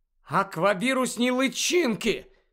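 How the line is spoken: Excited exclamation. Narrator (Ukrainian): схвильовано вигукнула Луна

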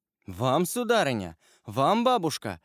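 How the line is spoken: Exclaimed in unison. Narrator (Russian): воскликнули в один голос Вильфор и Валентина

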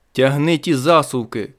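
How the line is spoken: Shout. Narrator (Ukrainian): крикнув я до Діани

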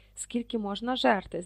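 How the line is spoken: Surprised whisper. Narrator (Ukrainian): здивовано прошепотів Рон

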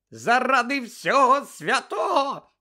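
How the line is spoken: Shrieking. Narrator (Ukrainian): заверещала місіс Візлі

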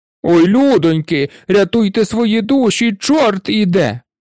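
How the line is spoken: Shouted in unison. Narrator (Ukrainian): Закричали вони в один голос

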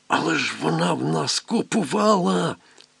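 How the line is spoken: Whisper. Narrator (Ukrainian): прошепотів

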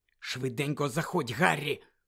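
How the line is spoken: Whisper. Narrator (Ukrainian): прошепотів Люпен

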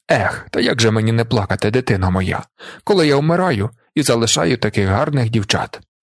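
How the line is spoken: Sighing. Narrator (Ukrainian): Зорбас зітхнув і мовив

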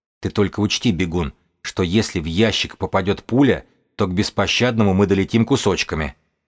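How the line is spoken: Calm. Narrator (Russian): сообщил он спокойно

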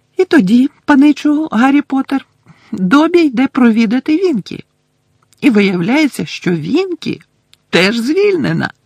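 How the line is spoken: Joyful. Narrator (Ukrainian): радісно закінчив Добі

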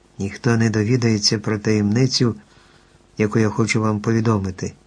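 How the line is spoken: Quiet beetle. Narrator (Ukrainian): тихо заговорив жуван

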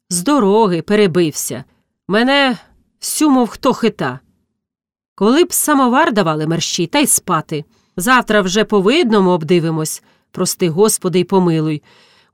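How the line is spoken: Sighing speech. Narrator (Ukrainian): утретє зітхнувши, сказав Колісник

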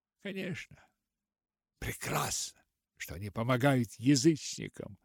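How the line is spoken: Sighing to herself. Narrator (Russian): вздохнула она про себя

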